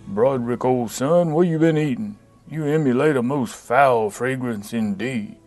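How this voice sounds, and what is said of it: Impression of an old uncle's voice. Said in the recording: “I was around Uncle Jelsik enough to do a reasonably accurate impression.”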